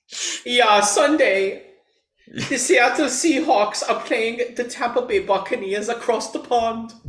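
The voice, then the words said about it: Attempted German accent. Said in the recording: “I'm trying to do a German accent. ... That's German? ... That sounds like the pigs from Shrek.”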